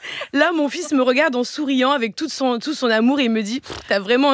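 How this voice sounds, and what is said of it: Usual voice. Nothing is said of it.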